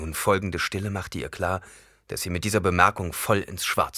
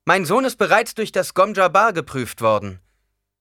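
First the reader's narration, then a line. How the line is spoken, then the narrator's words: Loud voice. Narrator (German): Mit lauter Stimme sagte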